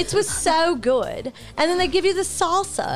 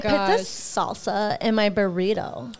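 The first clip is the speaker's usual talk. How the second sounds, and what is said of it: Affected diva-style celebrity voice. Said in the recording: “Or should I talk in my diva voice? ... Talking in diva voice. ... that's her regular voice. ... No, that's her Kim K voice.”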